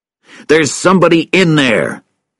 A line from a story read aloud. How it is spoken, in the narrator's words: he shouted to Russell